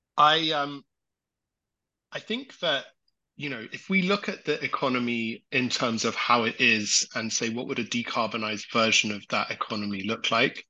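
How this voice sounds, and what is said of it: British accent. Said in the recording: “Pardon my British accent.”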